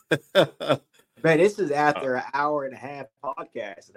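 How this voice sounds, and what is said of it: Rough, worn voice. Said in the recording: “my voice is, it's rough”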